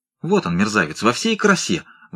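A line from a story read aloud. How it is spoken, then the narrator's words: Excited exclamation. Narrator (Russian): взволнованно вскричал Бигнал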